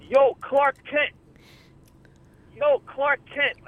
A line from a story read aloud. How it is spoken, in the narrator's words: someone yelling